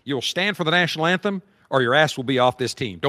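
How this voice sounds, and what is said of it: Jerry Jones impression. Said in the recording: “my Jerry Jones impression”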